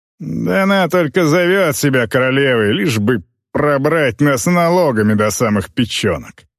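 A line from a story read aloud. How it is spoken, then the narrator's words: Grumbling merchant. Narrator (Russian): проворчал торговец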